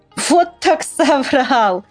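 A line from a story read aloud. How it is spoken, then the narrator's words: Laughing. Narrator (Russian): рассмеялся Мишутка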